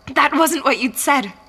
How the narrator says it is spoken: I begged

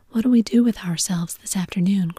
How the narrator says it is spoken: cried Daisy

